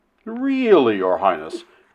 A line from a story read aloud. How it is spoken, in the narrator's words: Flynn exclaimed, coloring very deeply indeed